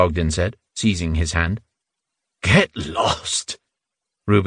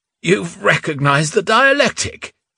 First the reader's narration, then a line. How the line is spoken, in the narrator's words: Reuben spluttered, lips protruding